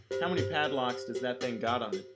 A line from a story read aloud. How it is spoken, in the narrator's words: he asked